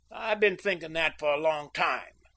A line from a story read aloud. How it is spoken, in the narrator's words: sneered Cliff